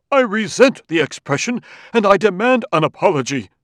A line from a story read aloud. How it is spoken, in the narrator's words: Amadiro thundered